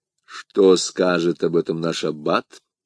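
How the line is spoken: Calm inquiry. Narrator (Russian): спокойно осведомился Атос

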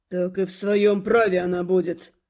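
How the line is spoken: Snort. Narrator (Russian): хмыкнул Дитер

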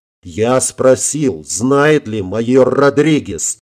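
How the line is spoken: Growling general. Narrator (Russian): зарычал генерал

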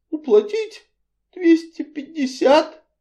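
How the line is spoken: Dejected faltering babble. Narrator (Russian): упавшим голосом пролепетала миссис Ривз

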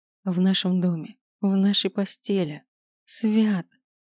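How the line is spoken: Moaning. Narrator (Russian): простонала

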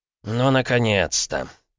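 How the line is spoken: Grumbling. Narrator (Russian): пробурчал Аполлонов

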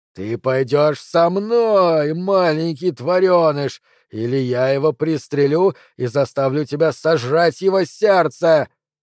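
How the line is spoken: Roar. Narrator (Russian): проревел Андреми

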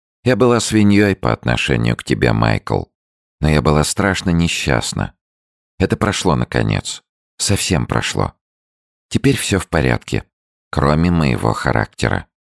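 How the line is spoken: Calm. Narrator (Russian): Флёр сказала спокойно

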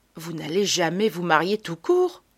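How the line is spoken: Sighing. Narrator (French): Elle soupire

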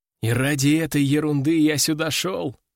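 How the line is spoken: Sigh. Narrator (Russian): вздохнул я

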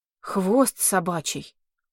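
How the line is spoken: Sighing. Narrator (Russian): вздохнул

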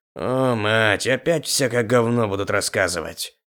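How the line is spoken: Grumble. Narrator (Russian): проворчал Пако

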